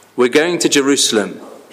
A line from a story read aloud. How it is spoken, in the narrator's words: he says